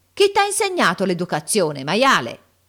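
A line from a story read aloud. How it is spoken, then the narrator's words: Yelling. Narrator (Italian): urlando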